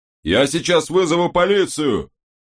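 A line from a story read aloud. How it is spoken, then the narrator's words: Yelling. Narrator (Russian): заорал бармен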